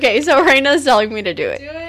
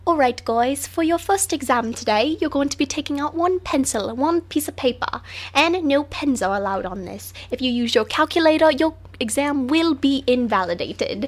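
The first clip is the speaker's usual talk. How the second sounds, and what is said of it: Put-on official British accent. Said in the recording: “there's like this British lady on all of like the instructions ... This is just my impersonation of it ... It's so official sounding”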